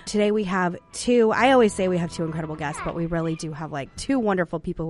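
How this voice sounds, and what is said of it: Sick-sounding voice with slight coughs. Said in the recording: “Still getting over my illness, but feeling much better... my weird voice... A few little coughs”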